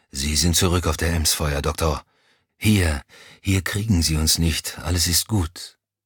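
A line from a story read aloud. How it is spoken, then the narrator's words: Murmuring. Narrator (German): murmelte er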